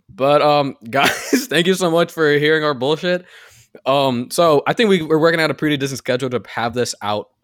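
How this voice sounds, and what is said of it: Talking very fast. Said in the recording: “I'm sorry I'm talking so fast.”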